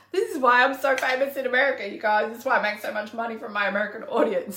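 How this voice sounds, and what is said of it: Australian accent. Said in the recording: “your Aussie accent is so freaking cute ... People just love my accent ... I spit fire at your ass in an Aussie accent”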